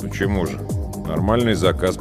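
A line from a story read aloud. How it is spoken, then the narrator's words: Grumbling. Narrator (Russian): пробурчал я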